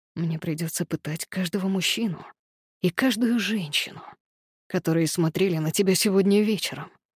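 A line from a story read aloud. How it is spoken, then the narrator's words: Whisper. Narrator (Russian): прошептал он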